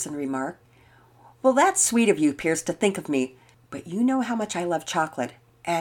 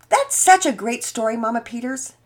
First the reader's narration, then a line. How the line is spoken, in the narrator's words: Penelope was shouting